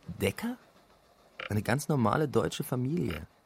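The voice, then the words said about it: Whispered line. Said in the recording (German): “zuflüstert”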